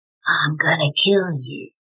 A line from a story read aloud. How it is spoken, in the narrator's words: deep breathing and that manufactured raspy voice saying